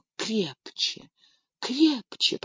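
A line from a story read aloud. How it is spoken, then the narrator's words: Whispered. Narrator (Russian): прошептала она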